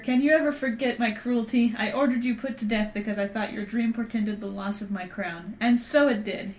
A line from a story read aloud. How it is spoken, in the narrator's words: cried